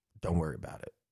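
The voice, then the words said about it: Intense, lowered tone of voice. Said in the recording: “this is where I get really intense, and my tone of voice kind of comes down to about right here”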